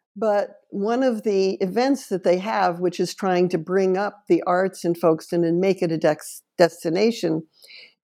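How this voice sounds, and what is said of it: New York American accent. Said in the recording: “heard my accent and said, where are you from? And I said, New York.”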